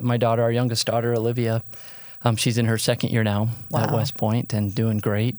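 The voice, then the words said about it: Hoarse, fading voice. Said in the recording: “I'm losing my voice. ... you've been talking too much”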